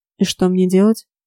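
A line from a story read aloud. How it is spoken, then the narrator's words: Muttered. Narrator (Russian): пробурчал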